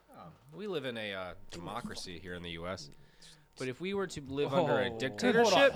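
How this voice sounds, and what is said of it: Narrator-style voice. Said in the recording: “talk like a narrator ... You Morgan Freeman wannabe”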